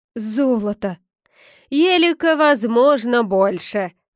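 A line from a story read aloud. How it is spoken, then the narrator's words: Loud exclamation, beggar monk. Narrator (Russian): Громко воскликнул нищий монах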